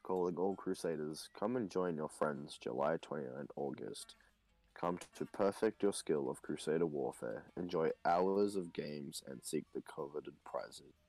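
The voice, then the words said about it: Flat monotone reading. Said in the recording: “read it in a monotone voice.”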